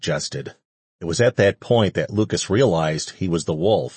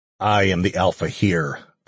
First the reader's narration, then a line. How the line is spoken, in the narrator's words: the man growled